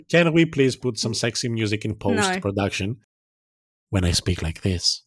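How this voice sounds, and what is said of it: Usual voice. Nothing is said of it.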